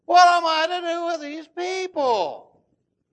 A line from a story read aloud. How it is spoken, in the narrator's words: he whines